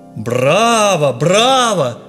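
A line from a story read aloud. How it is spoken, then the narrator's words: Shout. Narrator (Russian): закричал Иван Федорович в окне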